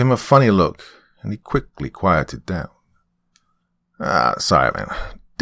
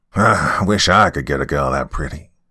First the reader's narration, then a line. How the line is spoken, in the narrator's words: he chuckled